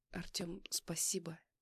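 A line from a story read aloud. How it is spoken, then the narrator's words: Quiet. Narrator (Russian): тихо произнесла Юля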